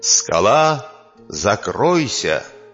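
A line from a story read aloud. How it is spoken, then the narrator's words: Commanding. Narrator (Russian): приказал кабан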